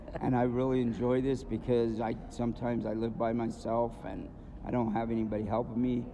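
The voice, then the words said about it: Strained, fading voice. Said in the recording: “as you can probably tell, my voice is going.”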